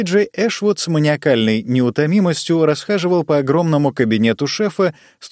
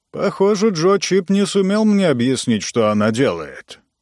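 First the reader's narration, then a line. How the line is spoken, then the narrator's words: Grumbled. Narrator (Russian): проворчал Ранситер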